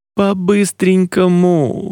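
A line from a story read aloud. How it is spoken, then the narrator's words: Pleading. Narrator (Russian): взмолился Джулиан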